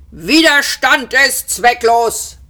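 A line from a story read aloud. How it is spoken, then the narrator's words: Guard bellowing. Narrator (German): brüllte der vogonische Wachtposten an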